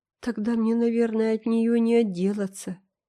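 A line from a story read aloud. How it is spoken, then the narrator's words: Sighing. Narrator (Russian): вздохнул Дэви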